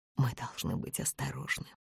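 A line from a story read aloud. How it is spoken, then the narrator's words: Whisper. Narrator (Russian): прошептала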